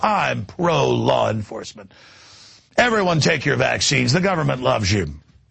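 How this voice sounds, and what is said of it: Sarcastic delivery. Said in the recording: “I'm being sarcastic. ... It's called satire.”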